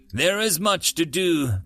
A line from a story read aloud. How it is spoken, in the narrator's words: Gramps said, sighing with a hint of assurance